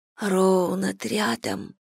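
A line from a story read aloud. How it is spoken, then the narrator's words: Whisper in ear. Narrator (Russian): прошептала я в ее ухо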